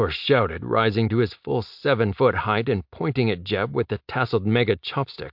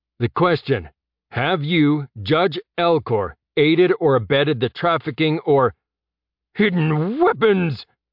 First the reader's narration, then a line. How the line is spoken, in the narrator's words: Elcor shouted over Jeb